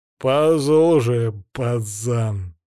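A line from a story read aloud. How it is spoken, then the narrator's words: Growled. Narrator (Russian): прорычал один из друзей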